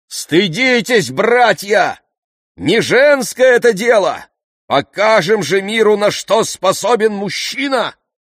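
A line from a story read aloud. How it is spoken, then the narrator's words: Shout. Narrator (Russian): крикнул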